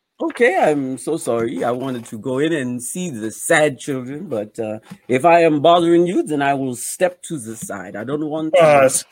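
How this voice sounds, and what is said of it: Put-on foreign accent. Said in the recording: “What accent is that?”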